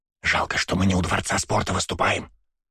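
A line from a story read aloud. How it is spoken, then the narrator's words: Whisper in ear. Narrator (Russian): прошептала на ухо мне Наташа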